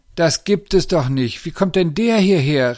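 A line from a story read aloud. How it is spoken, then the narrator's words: Called out. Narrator (German): rief Lisa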